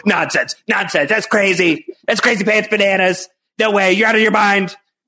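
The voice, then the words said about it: Imitates another person's voice, Goblin-like. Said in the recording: “my Kevin impression. It needs some work. ... It's not good. It's not good. ... There's a Green Goblin in there”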